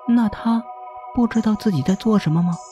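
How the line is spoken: Soft question. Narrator (Chinese): 杨子怡轻声问

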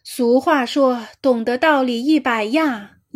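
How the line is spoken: Sighing. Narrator (Chinese): 河伯叹口气说

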